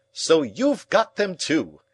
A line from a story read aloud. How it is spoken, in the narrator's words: he cried